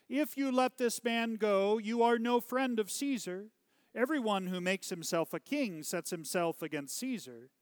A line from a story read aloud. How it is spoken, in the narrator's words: the Jews cried out